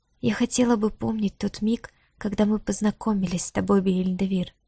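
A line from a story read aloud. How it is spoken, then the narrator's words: Whispered. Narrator (Russian): прошептала она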